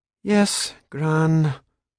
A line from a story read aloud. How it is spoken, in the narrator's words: Scatty said miserably